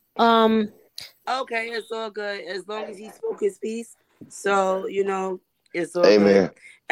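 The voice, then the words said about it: Hoarse, nearly lost voice. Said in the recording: “my voice is lost”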